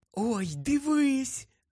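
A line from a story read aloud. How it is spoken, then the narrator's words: Joyful whisper. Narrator (Ukrainian): Радісно прошепотіла Луна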